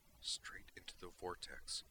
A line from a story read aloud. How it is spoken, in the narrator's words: she said quietly